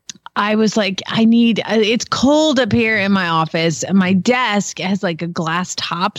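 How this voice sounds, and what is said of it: Stuffy, congested voice. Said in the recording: “I sound stuffy”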